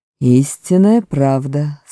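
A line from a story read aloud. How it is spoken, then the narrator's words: Plain. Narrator (Russian): сказал Аслан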